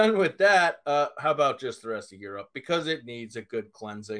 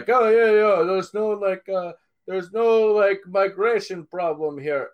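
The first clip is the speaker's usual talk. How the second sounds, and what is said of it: Put-on generic Eastern European accent. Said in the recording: “Is that your French accent? ... That's a generic Western Asian / European accent. Yes. Probably Russian. ... it sounded a little more like a Ukrainian accent than anything else.”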